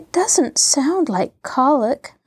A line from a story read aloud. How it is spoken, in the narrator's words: murmured Mary